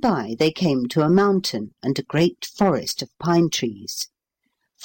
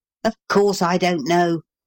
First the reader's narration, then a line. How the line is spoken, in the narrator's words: growled Paul